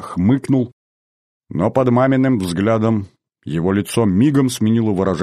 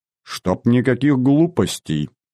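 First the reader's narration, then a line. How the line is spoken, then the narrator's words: Stern mother. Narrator (Russian): строго сказала мама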